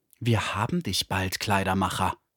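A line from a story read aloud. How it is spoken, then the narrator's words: Close menacing whisper. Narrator (German): jemanden in unmittelbarer Nähe wispern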